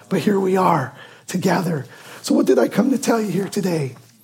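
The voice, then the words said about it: Strained, worn-out voice. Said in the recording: “I apologize for my voice. Too much yelling on the golf course, I guess ... God, please give me my voice back. I could not talk at all.”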